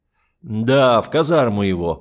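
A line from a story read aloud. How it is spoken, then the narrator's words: Displeased grumbling. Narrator (Russian): проворчал Брун, недовольный, что ему такому красивому не уделяют внимания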